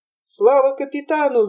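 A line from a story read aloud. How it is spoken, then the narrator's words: Two voices shouting. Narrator (Russian): закричали Ламберт и Якоб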